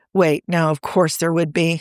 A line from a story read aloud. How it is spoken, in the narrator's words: Steve groaned